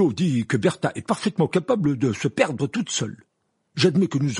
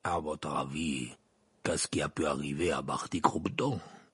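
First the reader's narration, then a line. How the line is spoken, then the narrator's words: Growled. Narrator (French): grogna la voix de Maugrey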